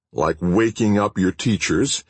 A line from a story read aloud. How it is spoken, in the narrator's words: asked Leader coldly